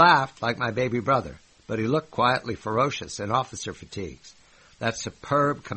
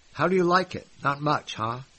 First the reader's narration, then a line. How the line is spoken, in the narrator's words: he asked